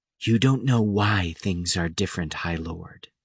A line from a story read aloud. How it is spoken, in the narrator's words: Witch said in her midnight voice